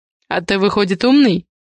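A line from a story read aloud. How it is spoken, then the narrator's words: Soft laughing. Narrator (Russian): Негромко рассмеялся Адриан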